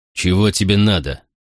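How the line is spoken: Growl. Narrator (Russian): прорычал Макрон

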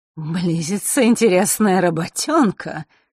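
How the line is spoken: Sudden chuckle. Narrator (Russian): неожиданно хохотнул тот

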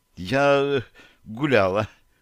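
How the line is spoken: Halting, forced-out words. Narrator (Russian): запинаясь, выдавила из себя Таша

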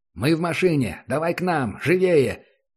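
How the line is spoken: Shouted over radio. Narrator (Russian): крикнул в эфир

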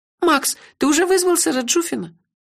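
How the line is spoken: Timid question. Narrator (Russian): робко спросила Кенлех

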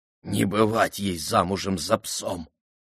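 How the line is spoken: Wheezing, breathless young man. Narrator (Russian): прохрипел паренек, будто на последнем издыхании

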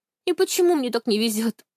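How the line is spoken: Chuckling. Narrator (Russian): хохотнула Анька

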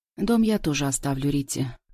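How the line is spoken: Calm. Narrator (Russian): отвечаю спокойно я

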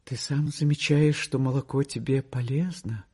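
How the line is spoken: Anxious, guilty. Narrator (Russian): тревожно, сказала виноватым голосом

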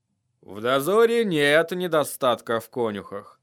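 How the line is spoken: Muttered. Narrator (Russian): пробормотал лорд Мормонт

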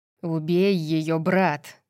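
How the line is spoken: Hissed. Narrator (Russian): прошипел Ауструс, четвертый Астерий, сверкающий магической силой

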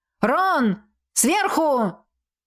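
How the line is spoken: Warning shout. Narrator (Russian): крикнула она напарнику, предупреждая

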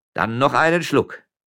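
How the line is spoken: Shouted. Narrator (German): rief der Müller

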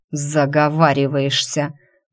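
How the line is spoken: Growling. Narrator (Russian): прорычал я

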